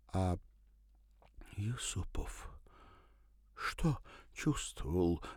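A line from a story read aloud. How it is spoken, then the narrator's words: Breathed out. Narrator (Russian): выдохнула она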